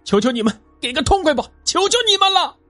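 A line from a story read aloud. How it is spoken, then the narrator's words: Desperate agonized scream. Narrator (Chinese): 他终于大喊起来，因为他的臀部已经被架在旺盛的火焰上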